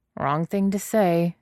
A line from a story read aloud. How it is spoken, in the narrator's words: Zin Zishuan mumbles